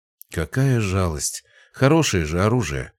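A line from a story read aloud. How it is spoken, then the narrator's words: Sighing. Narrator (Russian): вздохнул Николай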